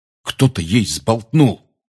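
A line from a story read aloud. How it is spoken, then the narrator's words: Angry. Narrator (Russian): сердито сказал Рон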